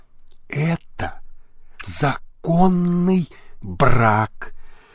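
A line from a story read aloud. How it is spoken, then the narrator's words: Reluctant whisper. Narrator (Russian): она шепотом произнесла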